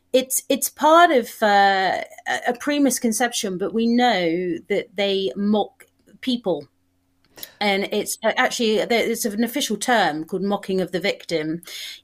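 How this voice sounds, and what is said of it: British London accent. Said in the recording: “I love your accent. I was out to London several times ... Here's the deal with your accent. You just said mock or mark.”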